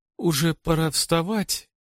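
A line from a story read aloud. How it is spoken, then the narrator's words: Sleepy little girl mumbling. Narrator (Russian): сонно бубнит малышка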